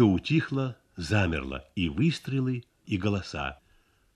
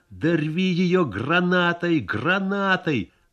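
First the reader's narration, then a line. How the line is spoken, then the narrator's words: Anguished shouting. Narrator (Russian): Кто-то с надрывом кричал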